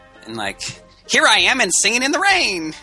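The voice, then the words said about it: Elf-like cartoon character voice. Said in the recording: “Sounds just like Olaf. ... That was my Olaf impression. ... Like an elf. You're like an elf.”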